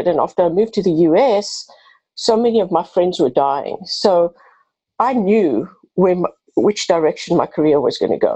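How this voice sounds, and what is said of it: South African accent. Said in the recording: “I have a bit of an accent. I'm originally from South Africa”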